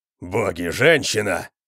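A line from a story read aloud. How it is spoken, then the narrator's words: Roar. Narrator (Russian): взревел Конан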